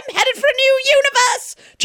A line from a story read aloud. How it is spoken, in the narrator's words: John shrieked joyfully